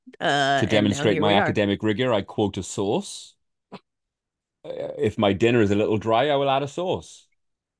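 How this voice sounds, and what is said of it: Accent where source sounds like sauce. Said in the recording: “it does sound like you're saying sauces ... they're the same word in my accent ... phonetically the same word”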